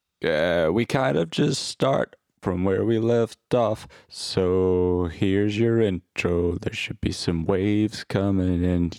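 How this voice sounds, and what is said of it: Weird, chesty sick-sounding voice. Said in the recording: “I feel like I've got a chest infection, if you're wondering why my voice sounds weird.”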